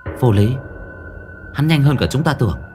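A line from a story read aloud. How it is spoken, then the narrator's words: Female voice. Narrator (Vietnamese): Một bóng đen nói với giọng nữ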